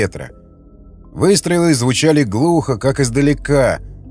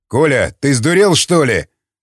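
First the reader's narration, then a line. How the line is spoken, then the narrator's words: Yelling. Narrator (Russian): заорал Яхонтов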